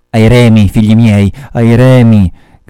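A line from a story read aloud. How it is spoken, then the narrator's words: Shouted. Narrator (Italian): gridò Ahab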